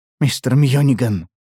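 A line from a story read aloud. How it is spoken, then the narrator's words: Weak, exhausted exhale. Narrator (Russian): бессильно выдохнул Харрис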